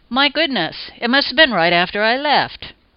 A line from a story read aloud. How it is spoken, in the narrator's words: exclaim